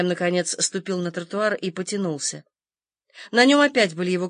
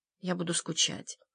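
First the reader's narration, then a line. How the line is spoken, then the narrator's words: Quiet voice. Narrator (Russian): тихо проговорил он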